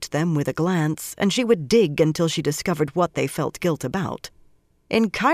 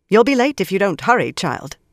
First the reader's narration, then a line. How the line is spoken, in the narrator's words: the Blue Sister told Shiriam sharply